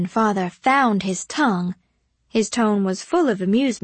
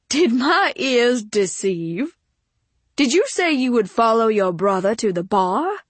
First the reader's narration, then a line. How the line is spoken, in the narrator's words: John twittered